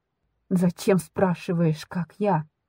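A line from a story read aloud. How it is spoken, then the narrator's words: Angry, through gritted teeth. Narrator (Russian): цежу злобно сквозь зубы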